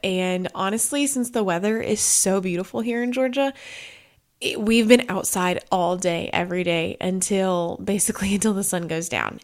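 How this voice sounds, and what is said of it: Stuffy, sniffly voice. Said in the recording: “Our allergies are ramped up, as you can tell from my voice. If I sniffle”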